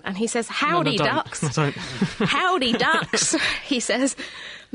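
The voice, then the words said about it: Attempted Texan accent. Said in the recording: “I'm going to attempt to read this in the appropriate accent. ... who's in Texas”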